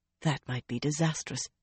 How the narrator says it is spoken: Galena muttered

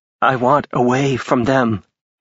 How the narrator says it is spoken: she said shakily

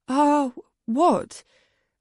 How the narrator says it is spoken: I said anxiously

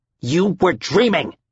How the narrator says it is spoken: Al barked

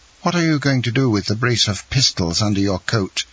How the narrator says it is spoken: he exclaimed, turning pale as death

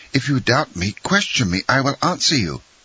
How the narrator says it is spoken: cried the unhappy young man

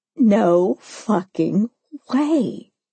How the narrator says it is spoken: she breathed, hand clapping over her mouth

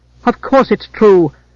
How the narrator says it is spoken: cried Bane, lower lip thrust forward in a charming pout

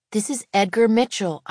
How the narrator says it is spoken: I say brightly

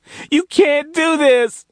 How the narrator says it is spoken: she cried

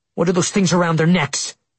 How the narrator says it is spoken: I asked angrily

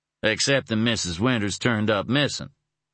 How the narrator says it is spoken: Stephen remarked blandly

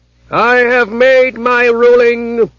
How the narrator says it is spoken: said the High Froman in a terrible voice

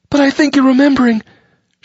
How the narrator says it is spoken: she said frantically

